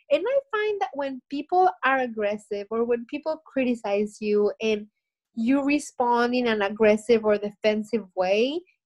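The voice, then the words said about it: Heavy accent. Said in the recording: “the heavy accent, or we can't understand what you're saying”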